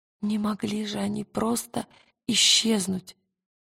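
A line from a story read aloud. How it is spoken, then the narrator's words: Whisper. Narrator (Russian): прошептала она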